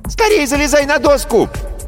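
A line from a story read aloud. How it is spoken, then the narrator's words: Girl's shriek. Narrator (Russian): взвизгнул девчачий голос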